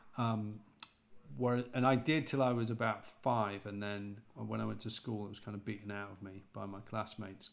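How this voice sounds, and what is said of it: British accent, not posh, like John Oliver. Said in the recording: “my accent isn't quite as posh, and I don't pronounce things as well as James and Barry do ... a slightly different category of Brit ... I've had John Oliver in the past ... I sound a bit like him.”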